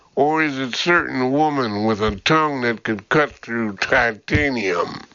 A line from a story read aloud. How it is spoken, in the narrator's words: Burke chuckled